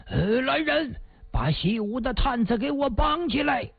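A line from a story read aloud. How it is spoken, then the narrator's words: Loud shout. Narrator (Chinese): 蒲金龙一声大喊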